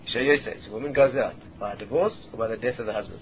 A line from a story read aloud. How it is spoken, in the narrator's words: So Rabbi Akiva quietly said to him again